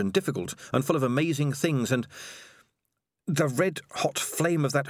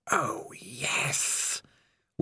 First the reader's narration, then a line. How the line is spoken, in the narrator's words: whispered the voice of Spider